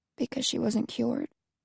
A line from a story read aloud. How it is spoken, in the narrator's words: Alex asked softly